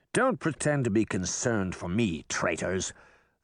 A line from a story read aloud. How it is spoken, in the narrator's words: snapped